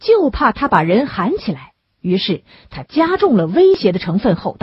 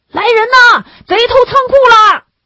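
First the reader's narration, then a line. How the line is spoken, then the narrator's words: Loud shout. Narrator (Chinese): 那黑影……只是大声的喊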